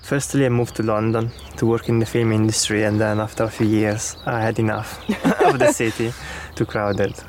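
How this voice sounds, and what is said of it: Italian accent. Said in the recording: “I'm guessing from your accents that you're not from round here. ... we are both from Italy.”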